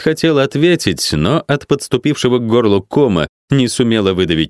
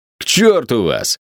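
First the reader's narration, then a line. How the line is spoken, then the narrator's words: Hateful bark. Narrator (Russian): с ненавистью рявкнул он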